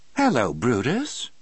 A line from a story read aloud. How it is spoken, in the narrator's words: Melinda said in a cheerful voice, as if noticing him for the first time